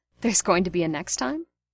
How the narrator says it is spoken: Remus had laughed and said

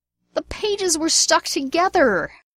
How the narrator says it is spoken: James howled

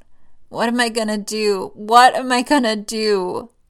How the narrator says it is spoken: The kid cries and croaks out

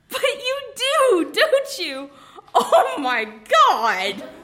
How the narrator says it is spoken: said, and went off into another peal of helpless laughter

